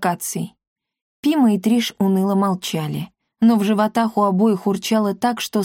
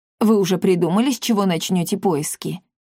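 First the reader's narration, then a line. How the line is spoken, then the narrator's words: Plain. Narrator (Russian): спросил ребят Парацельс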